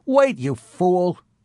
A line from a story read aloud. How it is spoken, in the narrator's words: Rene cried